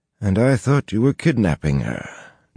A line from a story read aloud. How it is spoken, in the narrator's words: Noel sighed